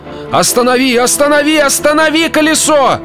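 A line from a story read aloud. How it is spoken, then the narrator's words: Shouting, changed voice. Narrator (Russian): закричал мистер Куджер, но уже не такой, как прежде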